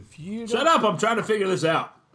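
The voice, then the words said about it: Yelling. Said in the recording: “I'm sorry for yelling at you”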